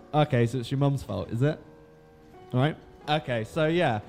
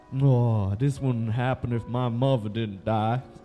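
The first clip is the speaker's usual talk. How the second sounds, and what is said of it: Fake Southern accent. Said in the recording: “in his dumb fake southern accent”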